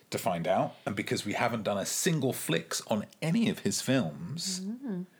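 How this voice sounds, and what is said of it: English accent. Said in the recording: “Sounds weird in an English accent.”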